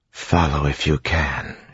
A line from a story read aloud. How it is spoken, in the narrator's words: she whispered